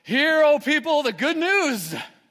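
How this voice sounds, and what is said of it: Booming preacher voice. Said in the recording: “preacher voice”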